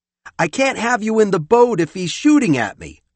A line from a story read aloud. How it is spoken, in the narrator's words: I shouted